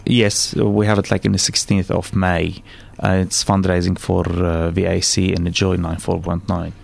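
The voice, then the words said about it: Arabic accent with rolled r. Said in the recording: “with that accent? ... Arabian ... With the roll of the tongue and a lovely. ... Lovely accent”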